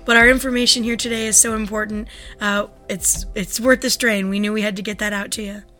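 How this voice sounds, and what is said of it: Fried, strained voice. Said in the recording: “something's wrong with your voice ... I had a little bit of a cold last week and did a two-hour lecture last night. So my voice is a little bit fried”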